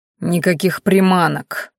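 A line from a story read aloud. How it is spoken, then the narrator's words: Growl. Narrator (Russian): прорычал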